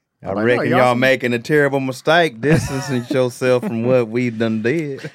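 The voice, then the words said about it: Put-on Southern American accent. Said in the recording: “Your southern racist accent is way better than your New York accent.”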